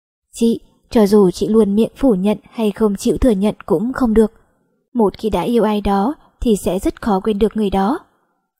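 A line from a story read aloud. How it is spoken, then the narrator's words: Quiet voice. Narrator (Vietnamese): Bạch Hi Hi nhỏ giọng nói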